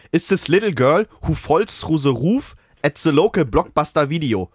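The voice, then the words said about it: English read in German accent. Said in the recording (German): “ich muss im deutschen Akzent lesen”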